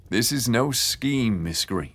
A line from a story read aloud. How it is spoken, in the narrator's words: he said again